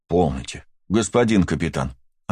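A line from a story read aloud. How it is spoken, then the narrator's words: Plain. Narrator (Russian): ответил я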